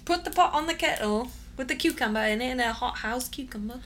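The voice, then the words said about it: Poor, unplaceable put-on accent. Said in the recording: “Bit of a whiffle. I'm not sure what accent that is. ... It's something somewhere. ... It's not great.”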